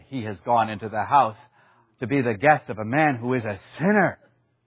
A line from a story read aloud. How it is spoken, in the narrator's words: they all grumbled and said